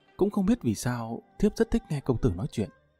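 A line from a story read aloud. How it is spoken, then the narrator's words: Soft, bashful. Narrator (Vietnamese): hai bên gò má Tần Tiên Nhi ửng hồng, nàng khẽ nói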